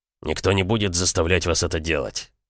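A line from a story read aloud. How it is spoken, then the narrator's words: Angry. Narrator (Russian): сердито сказал Севков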